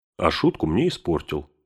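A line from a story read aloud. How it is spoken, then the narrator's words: Plain. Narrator (Russian): сказал Бильбо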